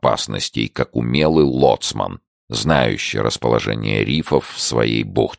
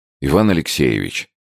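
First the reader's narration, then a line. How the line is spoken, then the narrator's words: Timid objection. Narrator (Russian): робко возразил Тихонов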